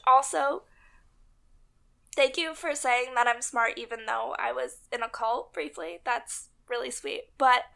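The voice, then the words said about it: Strained, failing voice. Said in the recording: “my voice is getting worse. I'm deteriorating in front of everybody's ears... before my voice dies out completely”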